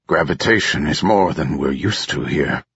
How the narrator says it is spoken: grunted Captain Vervum

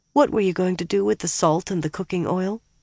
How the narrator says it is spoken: asked hesitantly

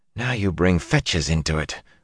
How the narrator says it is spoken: Zareen muttered

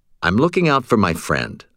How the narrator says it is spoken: I said

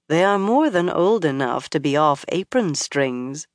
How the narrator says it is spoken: Moiraine said dryly

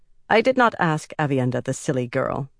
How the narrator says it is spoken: Amice said curtly

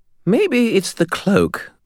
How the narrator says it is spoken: Bob suggested brightly

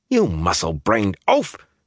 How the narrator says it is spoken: she snapped

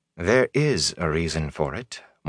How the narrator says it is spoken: Moraine said calmly

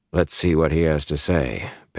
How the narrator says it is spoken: Perrin said grimly

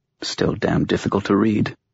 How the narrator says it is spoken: she muttered

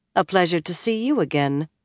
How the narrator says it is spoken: Nynaeve said coolly

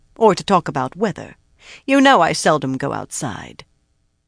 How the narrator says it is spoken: she said sharply

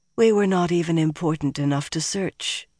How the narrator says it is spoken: Elaine sighed

